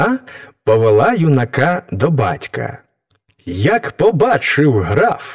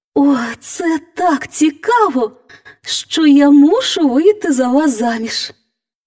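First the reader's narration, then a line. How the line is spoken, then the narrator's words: Girl exclaiming. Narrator (Ukrainian): вигукнула дівчина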